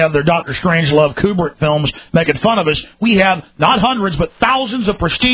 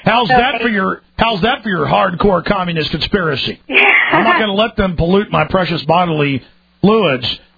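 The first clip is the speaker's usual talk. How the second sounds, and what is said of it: Sarcastic mocking delivery. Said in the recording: “I'm being sarcastic.”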